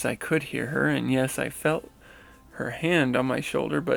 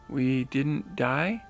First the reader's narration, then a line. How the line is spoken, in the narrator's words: slowly asked her with a strained voice